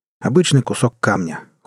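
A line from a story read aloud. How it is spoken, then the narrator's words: Cold. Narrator (Russian): холодно констатировал Джек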